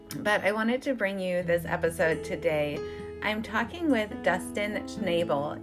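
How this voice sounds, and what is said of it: Hoarse, failing voice from illness. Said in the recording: “As you may be able to tell, I'm a little under the weather, or I think I'm losing my voice.”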